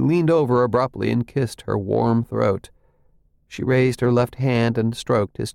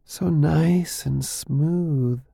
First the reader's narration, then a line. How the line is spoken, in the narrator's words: she murmured